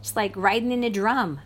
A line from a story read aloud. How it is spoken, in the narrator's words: shouted